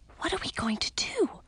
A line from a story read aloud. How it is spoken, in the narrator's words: I whispered to Edric